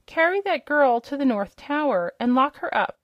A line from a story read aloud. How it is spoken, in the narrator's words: cried the princess